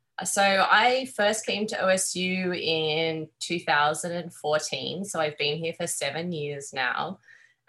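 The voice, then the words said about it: Australian accent. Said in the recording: “If you can tell by my accent, I'm Australian.”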